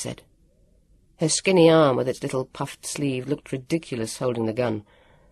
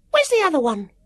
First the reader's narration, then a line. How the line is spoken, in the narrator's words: said sharply